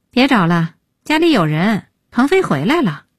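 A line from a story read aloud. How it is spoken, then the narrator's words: Sighing. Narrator (Chinese): 叹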